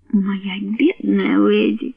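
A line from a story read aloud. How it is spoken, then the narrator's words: Soft whisper. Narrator (Russian): мягко прошептала она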